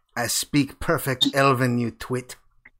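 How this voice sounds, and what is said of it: Thick put-on fantasy accent. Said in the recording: “with a very, very thick Shatterkai accent ... French. Oh la la. ... Good accent”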